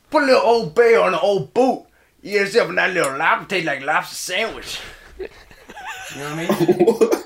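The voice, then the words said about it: Put-on Louisiana man's accent. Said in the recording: “that is my impression of a Louisiana man”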